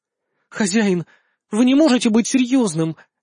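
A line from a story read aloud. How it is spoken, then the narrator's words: Unusually unsure whisper. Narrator (Russian): непривычно неуверенно прошептала она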